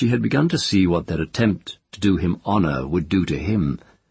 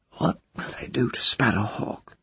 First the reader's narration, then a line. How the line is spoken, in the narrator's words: the child moved a little and asked in her hoarse, thick voice